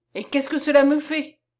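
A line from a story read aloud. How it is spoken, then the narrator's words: Exclaimed. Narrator (French): s'écria Séchard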